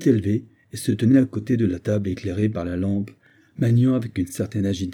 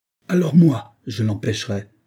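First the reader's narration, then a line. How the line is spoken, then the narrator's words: Exclamation. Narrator (French): s'écria Olivia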